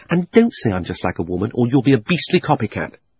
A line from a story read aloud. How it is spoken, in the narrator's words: she added hastily in her real voice